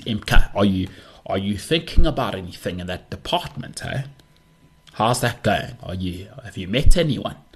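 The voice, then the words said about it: Put-on South African Jewish accent. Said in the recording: “I've been told I do a pretty good South African Jewish accent.”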